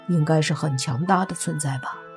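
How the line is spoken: Muttering. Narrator (Chinese): 莫凡嘀咕了一句，说

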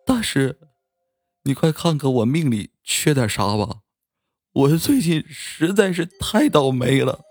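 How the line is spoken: Desperate sobbing. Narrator (Chinese): 他迫不及待的……痛哭流涕的说道

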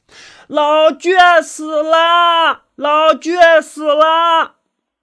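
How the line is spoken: Excited shouting while running. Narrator (Chinese): 一边跑一边略显兴奋的高喊着

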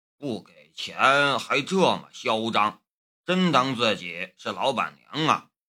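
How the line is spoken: Muttering. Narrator (Chinese): 马小安嘟囔道

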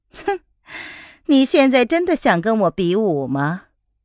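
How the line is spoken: Cool, faintly smiling. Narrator (Chinese): 夜来夫人淡淡的一笑，然后说

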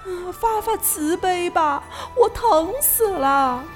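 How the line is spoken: Crying sorrowfully. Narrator (Chinese): 他哭得那么伤心

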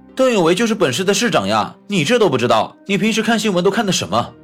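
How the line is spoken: Startled exclamation, nearly shouting. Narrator (Chinese): 老飞啊的一声，差点大声喊了出来

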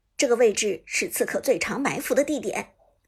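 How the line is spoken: Low commanding voice. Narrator (Chinese): 乐章低声指挥道

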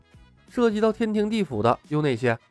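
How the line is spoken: Plain question. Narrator (Chinese): 李牧问

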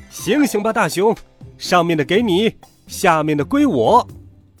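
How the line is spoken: Loud raised-voice shout. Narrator (Chinese): 兔子提高嗓门，大声喊

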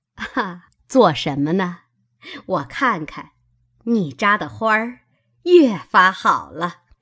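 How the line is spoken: Laughing. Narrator (Chinese): 邢夫人笑道

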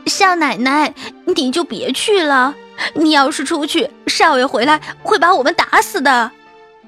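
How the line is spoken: Pleading. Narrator (Chinese): 双叶 哀求着

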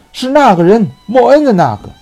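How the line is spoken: Shout. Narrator (Chinese): 博尔托斯喊道

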